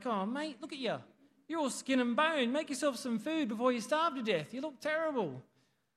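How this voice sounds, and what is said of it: Poor put-on Aussie accent, cockney-ish. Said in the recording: “a bushy Aussie accent ... Was that bushy? It was a bit more cockney, wasn't it? That was terrible.”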